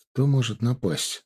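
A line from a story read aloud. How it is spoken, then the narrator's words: Quiet question. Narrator (Russian): тихонько спросил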